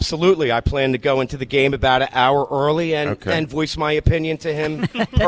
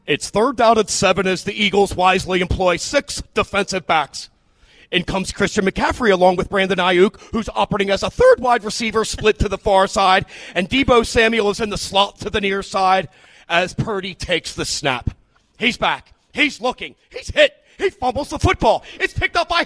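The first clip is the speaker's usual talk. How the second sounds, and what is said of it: Impersonation of a football play-by-play announcer. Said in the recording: “He has a great impersonation ... you ready to try your impersonation?”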